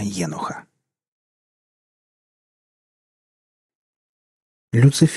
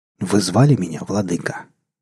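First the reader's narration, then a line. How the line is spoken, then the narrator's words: Velvety voice, question. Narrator (Russian): бархатным голосом спросил падший ангел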